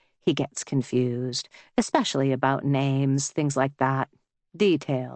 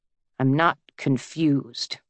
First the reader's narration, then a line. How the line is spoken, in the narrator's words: Wallace says bitterly